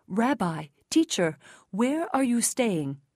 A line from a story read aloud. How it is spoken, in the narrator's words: They exclaimed